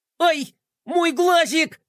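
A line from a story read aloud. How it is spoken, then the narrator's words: Monster wailing in borrowed voice. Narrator (Russian): завопил монстр голосом Мелкотрона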